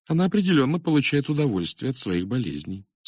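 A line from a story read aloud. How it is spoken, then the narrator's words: Dry reply, woman. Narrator (Russian): сухо ответила мисс Коул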